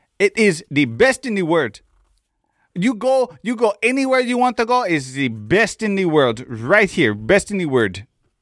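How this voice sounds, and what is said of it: Imitates another person's accented speech. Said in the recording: “he could not say the word world”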